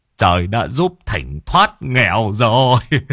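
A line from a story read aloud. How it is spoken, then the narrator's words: Tearful whimpering. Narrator (Vietnamese): Thỉnh mới lưng tròng nước mắt mếu máo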